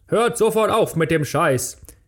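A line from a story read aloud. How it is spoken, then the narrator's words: Called out. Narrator (German): rief sie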